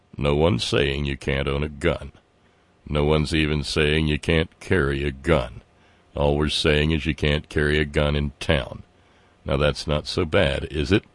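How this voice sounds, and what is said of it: Sam Elliott impression. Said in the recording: “do this in your best Sam Elliott voice”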